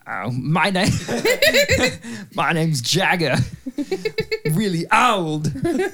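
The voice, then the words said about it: Imitates another person's voice. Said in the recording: “does a really good Mick Jagger impression.”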